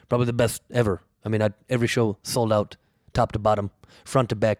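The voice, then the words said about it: Imitates another person's voice. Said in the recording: “I'll give you a better impression. I do Ben Glebe ... Ben talks with this kind of like slight.”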